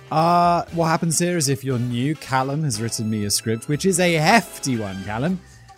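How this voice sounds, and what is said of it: British accent. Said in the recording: “from my home country, the UK. Just in case you couldn't tell by my accent.”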